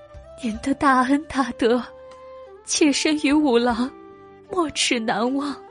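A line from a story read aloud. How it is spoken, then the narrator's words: Surprised, choking up. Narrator (Chinese): 姨娘的声音充满惊喜，随即哽咽道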